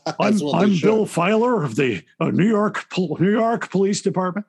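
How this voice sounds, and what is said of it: Bad British-actor American accent. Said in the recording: “British actor doing American ... A terrible British accent.”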